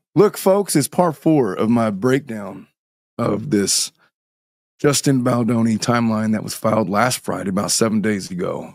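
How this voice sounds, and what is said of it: Hoarse voice from laryngitis. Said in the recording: “I'm fighting some laryngitis and my voice is getting a little bit better, but it ain't that bad.”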